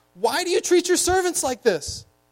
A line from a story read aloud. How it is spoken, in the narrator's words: the foreman of the people of Israel cried to Pharaoh